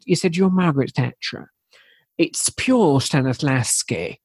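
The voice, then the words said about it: Impression of a university lecturer. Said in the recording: “I'll do an impression of it. I like doing impressions that people have never heard of.”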